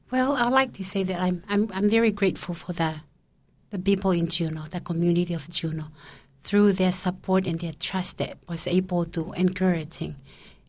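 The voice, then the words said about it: Speaks with a noticeable accent. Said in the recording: “people try to understand me with my accent”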